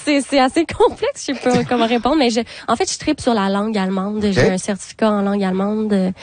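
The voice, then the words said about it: Québécois French accent. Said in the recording (French): “êtes-vous des petits Québécois? ... c'est sûr que votre accent le dit.”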